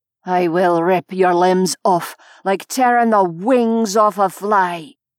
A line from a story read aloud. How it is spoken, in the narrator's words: snarled the Fae